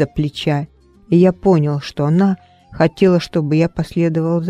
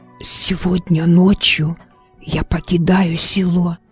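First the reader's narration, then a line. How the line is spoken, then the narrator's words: Whisper. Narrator (Russian): шепнул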